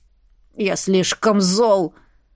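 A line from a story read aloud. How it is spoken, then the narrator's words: Offended puppy. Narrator (Russian): ответил щеночек, обиженно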